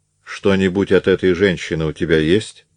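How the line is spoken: Plain. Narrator (Russian): спросил Павел

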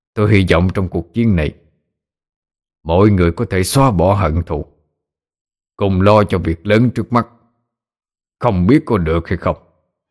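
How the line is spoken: Stern voice. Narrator (Vietnamese): nghiêm giọng nói

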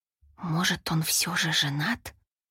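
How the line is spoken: Whispered. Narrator (Russian): прошептала

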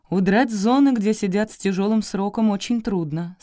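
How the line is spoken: Plain. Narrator (Russian): сказал Коробков

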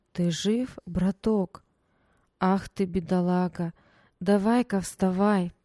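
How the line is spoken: Soft, slightly husky, clear. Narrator (Russian): Мягкий, с легкой хрипотцой голос отчетливо произнес

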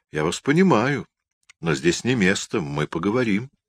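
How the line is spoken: Calm condescending whisper. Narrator (Russian): Князь усмехнулся спокойно, почти снисходительно, прошептал

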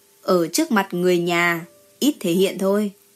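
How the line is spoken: Lecturing tone. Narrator (Vietnamese): Hạ Ngọc Cẩn ... lên giọng dạy bảo

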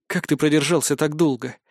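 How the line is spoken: Quiet question. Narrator (Russian): тихо спросила Торви

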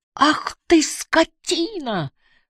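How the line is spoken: Screaming. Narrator (Russian): закричала Барбара

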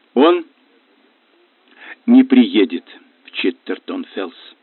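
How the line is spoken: Hoarse mutter. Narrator (Russian): хрипло пробормотала Наяда

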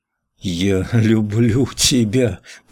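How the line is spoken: Moaning into ear. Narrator (Russian): простонал Николай ей в ухо

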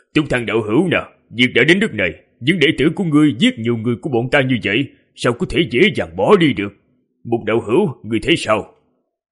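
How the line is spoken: Loud laugh, then speech. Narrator (Vietnamese): Thân Đồ Nam cười lớn rồi nói

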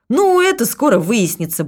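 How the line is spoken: Cheerful reassurance. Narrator (Russian): бодро заверила Людмила

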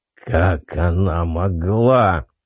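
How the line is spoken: Angry growl. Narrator (Russian): прорычал он в сердцах

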